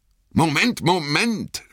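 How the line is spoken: Shouted. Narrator (German): schrie Aragorn

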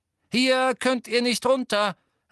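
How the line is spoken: Calling to crowd. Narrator (German): rief Ginny der Menge zu

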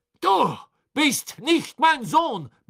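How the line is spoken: Barking. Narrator (German): bellte Crouch

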